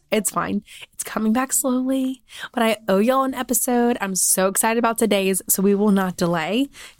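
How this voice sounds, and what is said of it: Raspy, hoarse, partly lost voice. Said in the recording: “Literally lost my voice. ... we don't sound like this. ... Thomas says he likes the raspy.”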